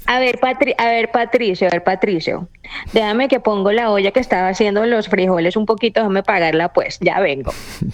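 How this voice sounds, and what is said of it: Somewhat Caribbean Spanish accent. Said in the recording (Spanish): “ese acento suena como un acento un poco caribeño”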